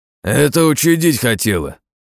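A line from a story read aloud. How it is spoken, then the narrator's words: Growled. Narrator (Russian): рыкнул Борзой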